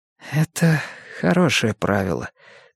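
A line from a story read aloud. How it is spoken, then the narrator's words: Quiet, forced smile. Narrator (Russian): тихо сказала Мия, выдавив улыбку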